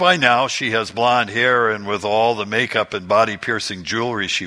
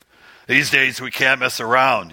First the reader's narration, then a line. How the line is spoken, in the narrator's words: he growls